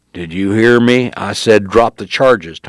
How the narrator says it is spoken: Tony said in a louder growl

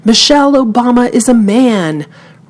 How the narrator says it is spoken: he shouted

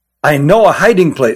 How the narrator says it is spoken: said Jilin

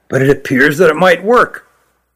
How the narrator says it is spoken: said quietly

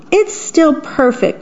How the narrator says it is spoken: Mickey exclaimed

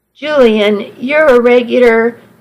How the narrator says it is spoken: I laughed

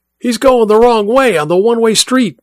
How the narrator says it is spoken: Mike shouted, both into the radio and at the others in the car

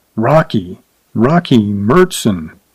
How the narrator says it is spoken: murmured darkly

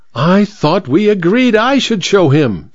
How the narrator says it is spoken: squealed the vicar petulantly

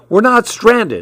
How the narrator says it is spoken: I shouted

